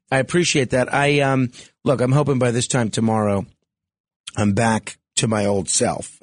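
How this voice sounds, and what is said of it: Hoarse, froggy voice. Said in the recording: “sore throat ... this laryngitis, and this frog in my throat”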